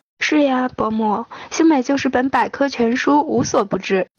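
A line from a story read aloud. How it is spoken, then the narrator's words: Smiling. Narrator (Chinese): 唐杰笑了笑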